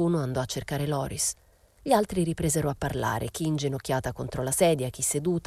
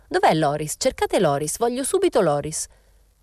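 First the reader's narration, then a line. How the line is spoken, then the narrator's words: Exclamation. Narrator (Italian): esclamò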